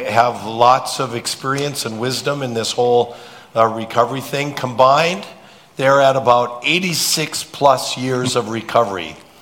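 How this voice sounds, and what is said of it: Rough voice, recovering from illness. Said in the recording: “my voice is still getting over a cold. So excuse my voice,”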